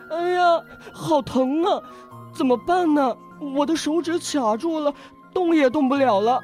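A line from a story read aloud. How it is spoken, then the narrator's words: Crying in pain. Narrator (Chinese): 他疼得哭了起来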